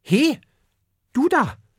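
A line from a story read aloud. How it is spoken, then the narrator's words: Suddenly calls out. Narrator (German): ruft er plötzlich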